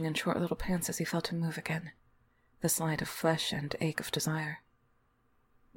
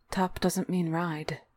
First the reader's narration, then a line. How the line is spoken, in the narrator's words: Will said evenly